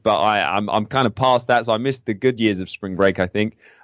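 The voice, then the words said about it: English accent. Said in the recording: “You might recognize the accent. ... In England”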